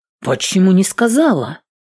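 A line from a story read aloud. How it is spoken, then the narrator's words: Worried exclamation. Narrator (Russian): воскликнула обеспокоенно Эвелин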